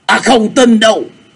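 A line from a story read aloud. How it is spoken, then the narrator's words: Shaken loud shout. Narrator (Vietnamese): Bành Liệt thấy lòng rúng động hét to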